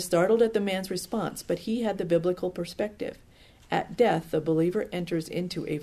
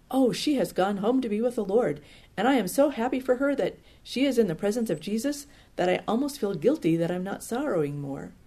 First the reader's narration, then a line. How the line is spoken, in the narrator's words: He exclaimed